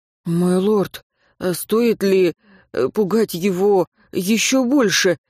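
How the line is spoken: Hesitant question. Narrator (Russian): неуверенно спросил Хагал

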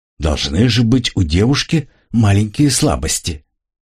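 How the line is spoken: Muttering. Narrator (Russian): Энака пробормотала

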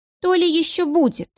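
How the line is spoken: Sighing. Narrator (Russian): вздохнула Надежда

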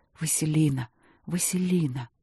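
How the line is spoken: Whispering. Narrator (Russian): шептал

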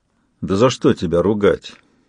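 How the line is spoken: Gloomy. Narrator (Russian): мрачно сказал Сварог

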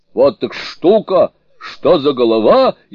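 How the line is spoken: Astonished exclamation. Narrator (Russian): изумленно воскликнул он

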